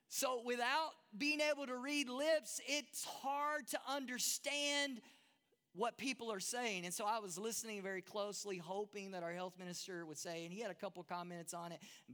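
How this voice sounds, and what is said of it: Texan American accent. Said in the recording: “that's hard for a Texas boy. And I know my accent's hard for some of you guys”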